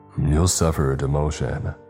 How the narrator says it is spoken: Barr said with a growl

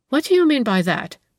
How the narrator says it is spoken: she exclaimed with a start

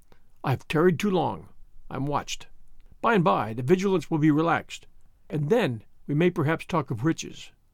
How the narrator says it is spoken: he said, in a frightened whisper

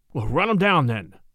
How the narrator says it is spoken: Charlie exclaimed

